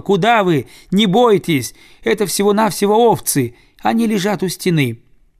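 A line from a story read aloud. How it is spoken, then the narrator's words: Small child shouting. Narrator (Russian): малыш-коротыш закричал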